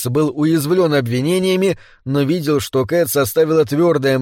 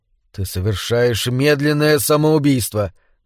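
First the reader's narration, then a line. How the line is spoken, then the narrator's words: Gloomy. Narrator (Russian): мрачно сказал Рикс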